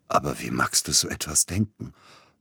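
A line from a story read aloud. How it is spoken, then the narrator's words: Hoarse. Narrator (German): brachte er heiser hervor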